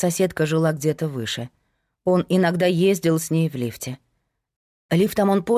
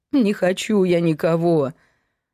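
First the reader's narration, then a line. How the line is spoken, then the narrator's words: Sobbing. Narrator (Russian): Любовь всхлипнула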